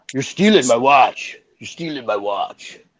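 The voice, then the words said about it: Imitates another person's voice. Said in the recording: “Good imitation.”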